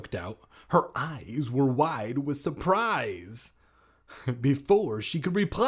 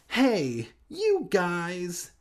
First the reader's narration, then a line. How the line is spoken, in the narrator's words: Hannah exclaimed, totally different than the pronunciation that Sloth would have done from Goonies, making a disgusted face